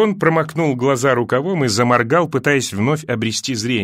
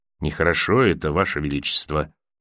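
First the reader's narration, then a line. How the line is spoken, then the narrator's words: Quiet. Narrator (Russian): тихо произнес сир Гарлан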